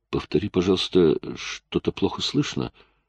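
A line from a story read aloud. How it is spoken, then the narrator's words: Uncertain voice. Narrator (Russian): Джейк произнес неуверенным голосом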